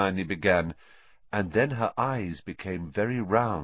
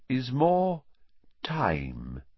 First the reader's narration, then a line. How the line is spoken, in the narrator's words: said Dumbledore slowly